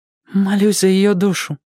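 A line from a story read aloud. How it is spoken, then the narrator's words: Trembling voice. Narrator (Russian): ответил Мэтчем дрогнувшим голосом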